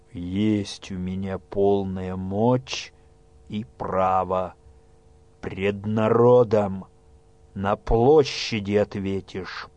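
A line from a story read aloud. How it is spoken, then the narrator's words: Low muffled man's voice. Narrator (Russian): глухо произнес кузнец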